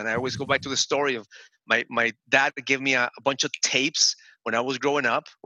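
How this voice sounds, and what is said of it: Different, non-native accent. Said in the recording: “My accent is different.”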